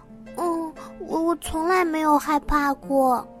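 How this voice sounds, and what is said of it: Quiet, hesitant soft voice. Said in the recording (Chinese): “小声的承认”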